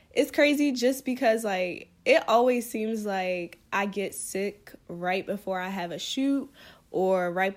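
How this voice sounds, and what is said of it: Sick, congested-sounding voice. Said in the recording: “a lot of you can probably already tell from my voice, um, your girl is down bad ... I have a cold”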